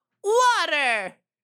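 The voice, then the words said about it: SpongeBob cartoon character voice. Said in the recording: “how accurate my impression of SpongeBob was ... my voice is a chameleon”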